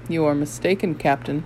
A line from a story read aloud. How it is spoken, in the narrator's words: he said